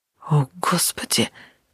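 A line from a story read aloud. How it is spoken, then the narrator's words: Whisper. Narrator (Russian): прошептал Натаниэль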